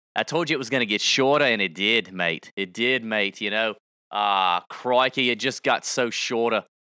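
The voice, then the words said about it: Put-on Australian accent. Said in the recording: “I do have a great Aussie accent. It's freaking amazing”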